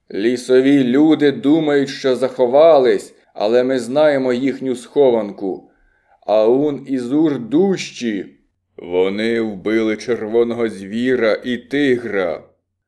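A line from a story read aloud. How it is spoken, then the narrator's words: Loud shout. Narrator (Ukrainian): уламр голосно закричав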